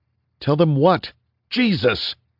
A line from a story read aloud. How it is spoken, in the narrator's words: Reese yelled